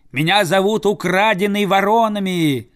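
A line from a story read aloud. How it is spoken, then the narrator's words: Boy yelling. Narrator (Russian): заорал мальчик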